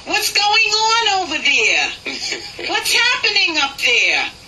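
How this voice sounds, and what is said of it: Thick put-on New York accent. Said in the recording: “I'm being as thick as I can get with this accent ... he's in New York and that's the way everyone talks”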